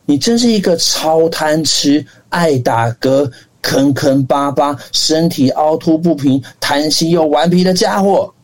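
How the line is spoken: Shouting. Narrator (Chinese): 鼹鼠大喊

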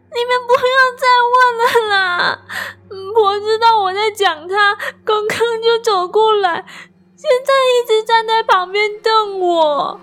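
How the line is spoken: Tearful desperate cry. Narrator (Chinese): 表姐像是再也受不了，声音带着哭腔喊出来

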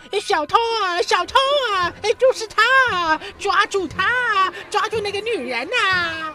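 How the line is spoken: Man shouting. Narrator (Chinese): 有个男人大声喊叫

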